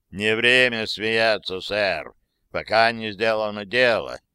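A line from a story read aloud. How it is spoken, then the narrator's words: Disapproving grumble. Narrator (Russian): недобрительно пробурчал сэр Браун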